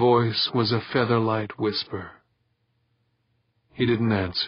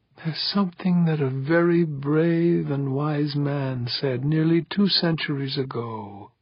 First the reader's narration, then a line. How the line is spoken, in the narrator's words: Elverda rasped